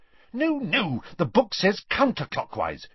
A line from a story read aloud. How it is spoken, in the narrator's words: she snapped